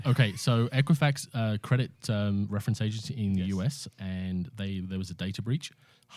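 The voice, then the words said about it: Speaks with a noticeable accent. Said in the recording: “I just wanted to hear you speak ... Used to my accent”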